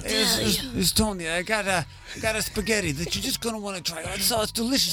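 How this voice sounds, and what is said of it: Put-on Italian-American accent. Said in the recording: “he's just waiting to get a little Italian ... trying to get this accent right”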